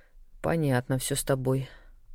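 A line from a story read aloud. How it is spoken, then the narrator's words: Quiet snort. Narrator (Russian): фыркнула тихо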